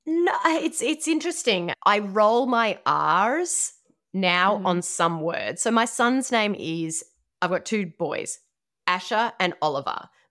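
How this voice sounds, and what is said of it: Australian accent. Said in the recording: “originally from Australia ... I don't think I'm ever going to lose the accent”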